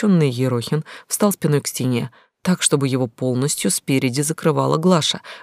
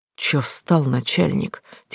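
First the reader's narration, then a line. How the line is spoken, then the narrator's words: Quiet. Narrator (Russian): тихо сказал он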